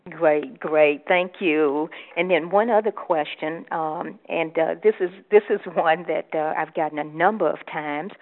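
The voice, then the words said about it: African American Louisiana accent. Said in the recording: “I'm African American. Some of you probably can tell that from my voice, and from Louisiana.”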